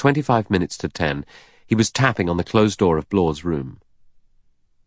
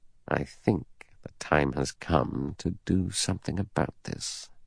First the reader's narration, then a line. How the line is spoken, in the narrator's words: He said very softly